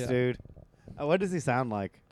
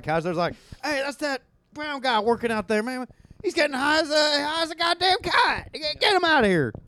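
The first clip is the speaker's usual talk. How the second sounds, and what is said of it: Imitates another person's voice. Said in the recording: “great Joe Biden impression”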